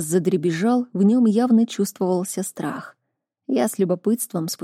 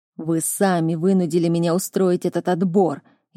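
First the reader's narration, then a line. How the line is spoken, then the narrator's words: Irritated growl. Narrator (Russian): еще больше раздражаясь, прорычал Миралан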